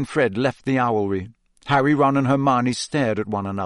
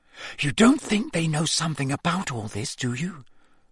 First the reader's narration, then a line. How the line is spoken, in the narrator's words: Hermione whispered